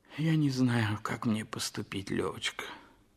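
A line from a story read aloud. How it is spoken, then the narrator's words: Sighing speech. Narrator (Russian): вздохнув, сказал Толстой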